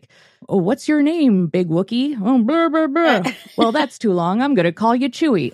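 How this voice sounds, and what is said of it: Chewbacca imitation. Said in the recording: “good Chewbacca imitation”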